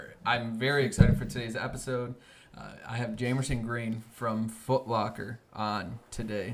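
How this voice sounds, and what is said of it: Usual voice. Nothing is said of it.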